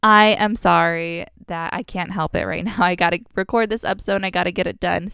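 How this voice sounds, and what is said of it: Congested, sick-sounding voice. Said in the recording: “I am a bit under the weather ... I have been so sick ... my voice sounds differently ... If I sound a bit congested”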